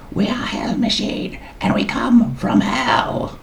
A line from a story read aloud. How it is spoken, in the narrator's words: The screech proclamation